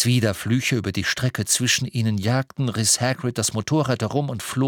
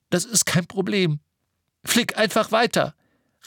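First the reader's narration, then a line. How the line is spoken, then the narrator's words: Called back. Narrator (German): rief Harry zurück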